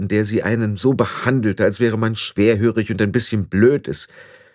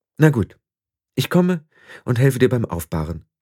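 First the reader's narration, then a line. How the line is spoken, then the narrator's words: Forced calm. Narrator (German): sagte sie so ruhig wie möglich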